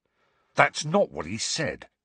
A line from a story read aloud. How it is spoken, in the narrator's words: snarled Fred